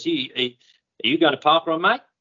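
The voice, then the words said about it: Put-on Australian accent. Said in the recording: “That's an Aussie accent, by the way. ... Still sounded a bit like Borat.”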